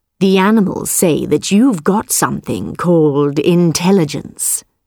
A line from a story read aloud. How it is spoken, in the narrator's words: said the tiger